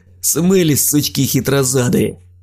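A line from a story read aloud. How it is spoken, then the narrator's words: Laughing. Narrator (Russian): рассмеялся Дим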